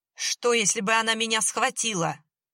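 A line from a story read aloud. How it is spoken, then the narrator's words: Spitting furious yell. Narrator (Russian): брызжа слюной заорал Гена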